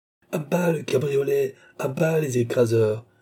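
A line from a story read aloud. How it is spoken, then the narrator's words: Furious crowd shouting. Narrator (French): cria la foule avec furie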